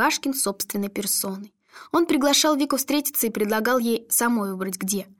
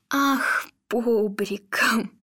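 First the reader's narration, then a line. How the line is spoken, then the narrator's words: Sighing. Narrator (Russian): Вика вздохнула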